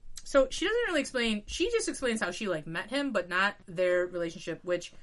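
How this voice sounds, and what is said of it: Usual voice. Nothing is said of it.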